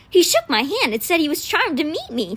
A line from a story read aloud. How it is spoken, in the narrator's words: Tai said, happily